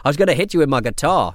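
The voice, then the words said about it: Put-on Australian accent. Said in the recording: “I'm doing an Australian accent there. I didn't mean to.”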